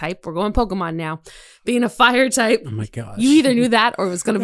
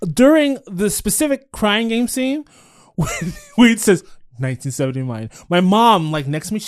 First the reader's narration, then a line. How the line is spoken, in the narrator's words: she laughs